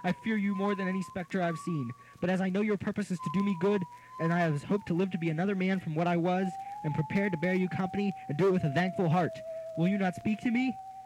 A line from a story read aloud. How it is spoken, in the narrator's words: exclaimed